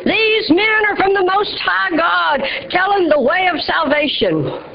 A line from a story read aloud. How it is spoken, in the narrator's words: this girl was demon-possessed, shouting